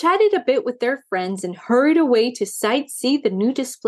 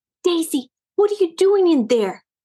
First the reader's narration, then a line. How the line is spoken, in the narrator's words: gasped Maisie